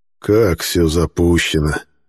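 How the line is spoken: Surprised sigh. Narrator (Russian): удивленно вздохнул Декарт

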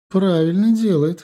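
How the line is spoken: Female scoff. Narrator (Russian): хмыкнула она

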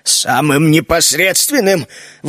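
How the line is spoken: Indignant exclamation. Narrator (Russian): возмущенно воскликнул Джино

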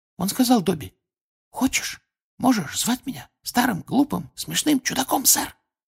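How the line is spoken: Embarrassed whisper, nervous giggle. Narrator (Russian): Смущенно шепнул Добби и испуганно хихикнул

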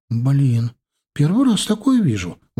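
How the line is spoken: Exclaimed. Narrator (Russian): воскликнула она

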